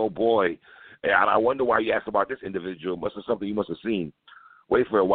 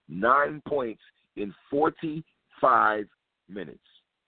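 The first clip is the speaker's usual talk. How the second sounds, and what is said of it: Slow, conceited delivery. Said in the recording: “Let me slow it down in my conceited voice.”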